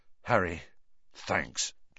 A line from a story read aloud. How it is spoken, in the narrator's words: George muttered